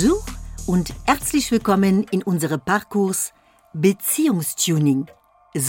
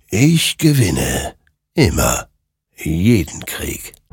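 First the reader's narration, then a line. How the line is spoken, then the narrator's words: Murmuring. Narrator (German): murmelte dieser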